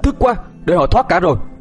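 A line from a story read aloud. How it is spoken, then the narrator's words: Angry. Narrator (Vietnamese): Khải tức giận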